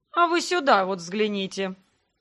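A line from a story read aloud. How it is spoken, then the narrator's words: Snide. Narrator (Russian): Ехидно проговорил лорд Дагорн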